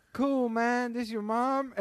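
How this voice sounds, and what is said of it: Michael Che impression, East L.A. accent. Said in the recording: “that was like an East L.A. gangbanger accent for Michael Che”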